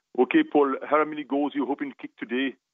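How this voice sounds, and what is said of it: Put-on West Indian accent. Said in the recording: “I was trying to do my West Indian accent”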